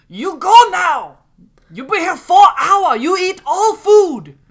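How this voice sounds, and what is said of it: Good imitation of a Chinese accent. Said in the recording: “That was a good impression of I guess a Chinese lady or a Chinese man ... It's an accent.”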